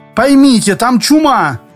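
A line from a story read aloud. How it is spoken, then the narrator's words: Doctor shouting. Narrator (Russian): кричал врач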